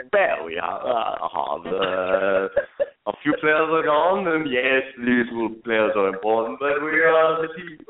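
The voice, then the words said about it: Bad German accent, Jurgen Klopp impression. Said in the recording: “My lonely German accent, yeah, my horrible German accent.”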